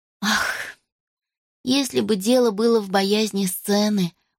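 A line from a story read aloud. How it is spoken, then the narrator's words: Inner sigh. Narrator (Russian): мысленно вздохнула Роз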